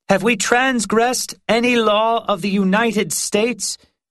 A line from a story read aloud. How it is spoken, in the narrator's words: she called out to the assembly